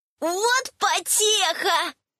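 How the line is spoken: Ecstatic yelling of ogres. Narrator (Russian): Восторженно заорали огрики

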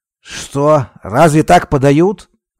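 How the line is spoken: Shouting. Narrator (Russian): крикнул фабрикант

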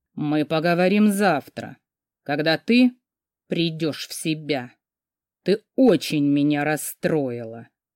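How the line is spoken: Dull, muffled voice. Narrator (Russian): глухо проговорил господин Нестейр

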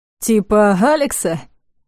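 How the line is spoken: Mocking question. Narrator (Russian): насмешливо поинтересовался Кира

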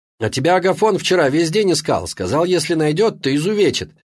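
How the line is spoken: Cheerful yelling. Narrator (Russian): весело продолжал орать Витька

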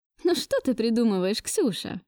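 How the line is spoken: Forced casual laugh. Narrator (Russian): Пыталась я непринужденно рассмеяться

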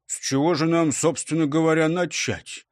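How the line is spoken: Displeased dog's question. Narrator (Russian): спросил пес недовольным тоном

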